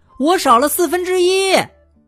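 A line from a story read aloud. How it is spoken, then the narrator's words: Shouting. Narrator (Chinese): 姜饼人喊道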